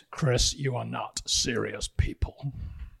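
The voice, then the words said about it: Imitates a TV character's voice. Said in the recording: “in your best Logan Roy accent”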